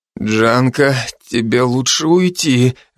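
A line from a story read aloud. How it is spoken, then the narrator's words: Strained. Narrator (Russian): выдавил я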